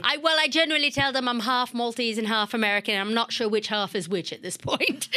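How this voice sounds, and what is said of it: American accent. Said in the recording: “where's the accent from? Do all Maltese have an American accent?”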